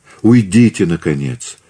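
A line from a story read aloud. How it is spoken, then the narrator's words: Pleading. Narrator (Russian): взмолилась Екатерина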